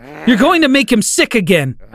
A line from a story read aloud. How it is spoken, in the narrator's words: I screamed